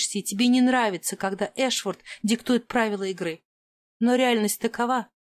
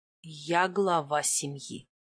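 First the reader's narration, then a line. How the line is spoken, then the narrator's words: Even tone. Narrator (Russian): ровным тоном проговорил Маркус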